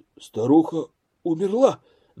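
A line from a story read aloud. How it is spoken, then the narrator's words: Trembling question. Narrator (Russian): дрожащим голосом спросил Назаров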